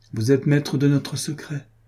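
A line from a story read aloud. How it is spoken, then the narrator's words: Plain. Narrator (French): dit-il alors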